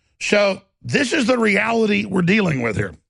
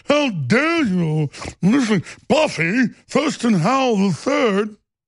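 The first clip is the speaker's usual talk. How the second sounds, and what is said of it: Fake posh British accent. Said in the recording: “fake Atlantic, you know, like fake British accent.”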